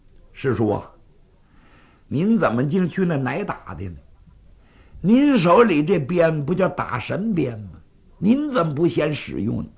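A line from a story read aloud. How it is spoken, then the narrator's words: Laughing. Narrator (Chinese): 雷震子笑了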